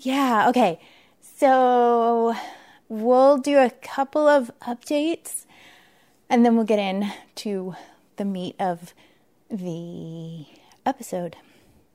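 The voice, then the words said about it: Out of breath, breathless speech. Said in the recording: “I'm out of breath right now. ... Because I just ran up and down the stairs.”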